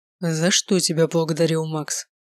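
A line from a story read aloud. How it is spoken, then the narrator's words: Calmer repetition. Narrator (Russian): Снова повторил он уже более спокойным голосом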